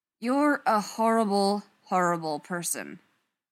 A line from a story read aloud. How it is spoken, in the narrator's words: Jared said flatly